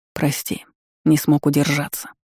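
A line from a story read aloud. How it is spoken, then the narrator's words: Muttered. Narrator (Russian): пробормотал он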